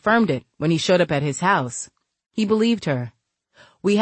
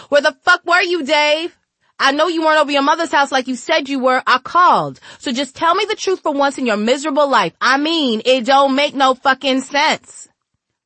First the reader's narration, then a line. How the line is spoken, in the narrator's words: a couple yelling loudly